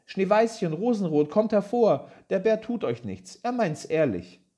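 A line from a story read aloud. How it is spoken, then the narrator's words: Called out. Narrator (German): rief sie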